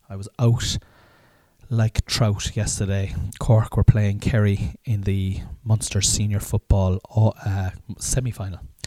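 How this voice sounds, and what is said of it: Slightly raspy voice. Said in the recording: “my voice is a little raspy ... because I was drinking last night and drinking all day yesterday”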